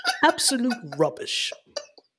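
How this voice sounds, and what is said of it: Put-on British accent. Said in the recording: “I'm glad I pulled that UK accent”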